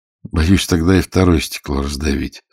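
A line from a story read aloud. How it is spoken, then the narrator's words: Plain. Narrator (Russian): сказал Лопатин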